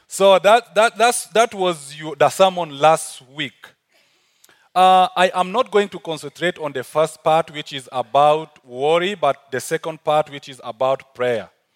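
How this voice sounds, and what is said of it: African accent. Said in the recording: “my African accent, I'm not sure whether you are getting me or not”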